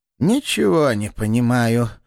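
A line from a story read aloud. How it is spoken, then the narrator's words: Choked breathless exhale. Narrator (Russian): придушенно выдохнул Флевретти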